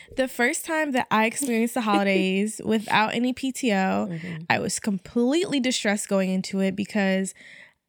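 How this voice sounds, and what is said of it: American accent. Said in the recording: “I'm going to switch back to my American accent for this.”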